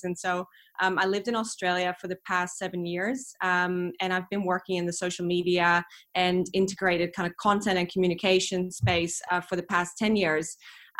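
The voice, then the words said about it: Mixed international accent. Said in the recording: “My accent, as you can hear, is kind of a little bit of a mongrel of different things.”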